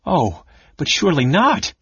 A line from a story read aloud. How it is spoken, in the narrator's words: she cried